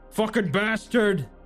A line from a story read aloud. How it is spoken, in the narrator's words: he shouted